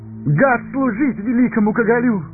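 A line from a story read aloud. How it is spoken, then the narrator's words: Eager exclamation. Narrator (Russian): с готовностью воскликнул Пипин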